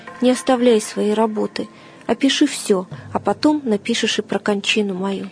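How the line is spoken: Quiet martyr. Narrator (Russian): Мученик же тихо проговорил

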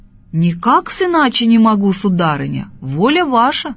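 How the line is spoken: Loud. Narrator (Russian): говорит громко мужик

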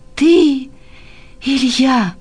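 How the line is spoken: Joyful cry. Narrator (Russian): вскричал радостно

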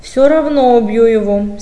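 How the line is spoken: Angry. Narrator (Russian): сердито сказал брат

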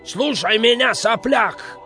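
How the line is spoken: Old man shouting. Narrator (Russian): закричал дед

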